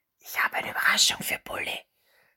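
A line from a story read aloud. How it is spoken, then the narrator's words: Boy whispering with grin. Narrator (German): flüsterte der Junge grinsend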